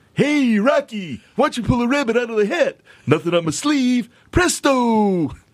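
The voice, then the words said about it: Cartoon moose character voice. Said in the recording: “You want to hear my moose impression, my moose call? ... You weren't ready all for Bullwinkle, were you?”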